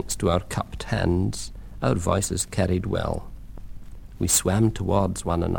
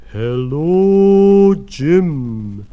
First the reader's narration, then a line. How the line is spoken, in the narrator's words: Sam boomed